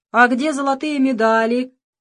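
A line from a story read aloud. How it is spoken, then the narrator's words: Shouting. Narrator (Russian): закричал Иннокентий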